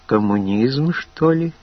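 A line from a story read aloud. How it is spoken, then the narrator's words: Uncertain question. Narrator (Russian): Наконец Тоня неуверенно спросила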